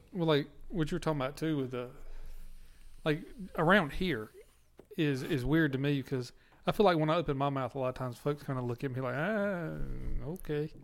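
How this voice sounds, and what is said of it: Southern American accent. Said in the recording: “I got the Southern accent”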